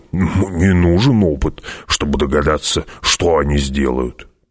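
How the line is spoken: Grumbling. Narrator (Russian): проворчал Гурни

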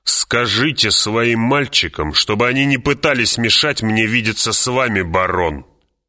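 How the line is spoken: Growl. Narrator (Russian): прорычал он

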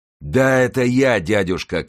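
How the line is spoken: Shout. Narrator (Russian): крикнул он

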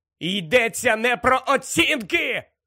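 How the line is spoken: Shout. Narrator (Ukrainian): крикнув Гаррі

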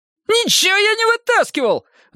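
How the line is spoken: Shrill squeal. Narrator (Russian): взвизгнул Лысый

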